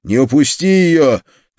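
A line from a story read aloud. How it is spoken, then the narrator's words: Shouted after someone. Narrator (Russian): крикнул я вслед убегающему цыгану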